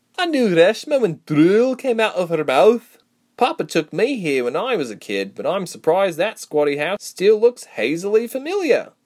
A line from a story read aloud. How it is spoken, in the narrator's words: Reshma said, laughing at the poor state of Sebra's house